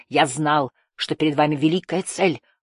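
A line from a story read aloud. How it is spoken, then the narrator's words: Whisper. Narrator (Russian): прошептал он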